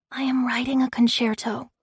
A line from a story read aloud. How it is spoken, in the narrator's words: he whispered